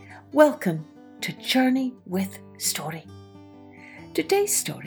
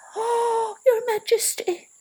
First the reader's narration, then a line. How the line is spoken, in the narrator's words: she squeaked